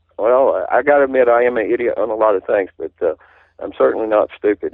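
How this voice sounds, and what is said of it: Southern US accent. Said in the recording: “somebody speaking as I do with a southern accent”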